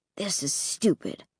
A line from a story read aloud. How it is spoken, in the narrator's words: Luke muttered